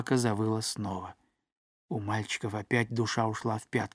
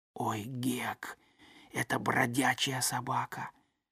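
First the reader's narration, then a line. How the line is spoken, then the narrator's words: Frightened faint whisper. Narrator (Russian): Том, весь дрожа от страха, произнес едва слышным шепотом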